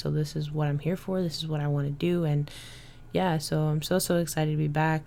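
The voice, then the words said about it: Smiling, happy-sounding voice. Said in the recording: “I don't know if you could tell from my voice, but I'm like smiling so hard”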